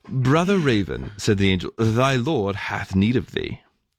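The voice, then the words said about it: Put-on proper English accent. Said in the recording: “Obviously, as an angel, he had a proper English accent.”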